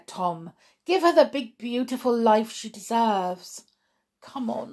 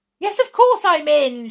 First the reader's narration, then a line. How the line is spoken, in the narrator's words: shouted the girl